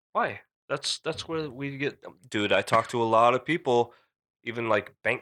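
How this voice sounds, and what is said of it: Usual voice. Nothing is said of it.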